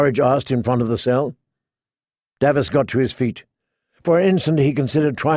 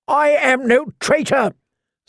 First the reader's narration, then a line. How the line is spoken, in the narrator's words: screeched the prisoner